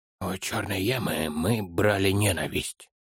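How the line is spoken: Whispered addition. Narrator (Russian): шепотом прибавил он

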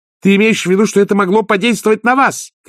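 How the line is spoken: Shouting. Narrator (Russian): крикнула Агнесса

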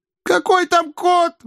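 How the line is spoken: Angry shout, young woman. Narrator (Russian): в злобе закричала девица

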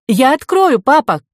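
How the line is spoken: Shouting. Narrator (Russian): крикнула Ко

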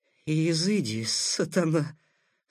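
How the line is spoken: Weak voice. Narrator (Russian): слабым голосом проговорил Такеда

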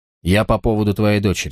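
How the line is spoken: Plain. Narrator (Russian): сказал я

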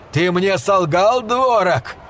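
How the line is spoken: Nearly shouting. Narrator (Russian): почти крикнул

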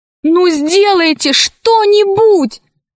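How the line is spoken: Shouted. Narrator (Russian): крикнула Алиса старухе

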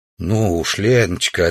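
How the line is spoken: Gentle reply. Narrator (Russian): ответил мягко Савич

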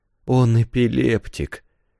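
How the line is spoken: Quiet. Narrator (Russian): тихо сказал Парики

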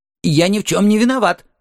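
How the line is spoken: Old man's trembling exclamation. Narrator (Russian): воскликнул старик, дрожа

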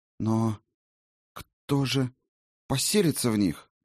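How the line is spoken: Forced out. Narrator (Russian): выдавила она наконец

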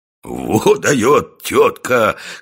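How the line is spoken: Men laughing loudly. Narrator (Russian): хохотали рыбаки

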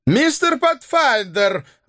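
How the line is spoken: Scottish man's exclamation. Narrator (Russian): воскликнул шотландец

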